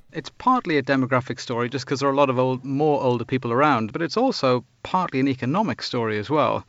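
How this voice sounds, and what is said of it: Strong English accent. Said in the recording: “a strong English accent is preferred for this job. ... Well, that's good, because I've got one of those.”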